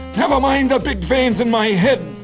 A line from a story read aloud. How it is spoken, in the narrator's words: Garvey shouted